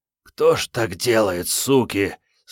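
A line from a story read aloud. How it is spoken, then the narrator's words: Anguished hoarse wheeze. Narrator (Russian): С тоской прохрипел Генка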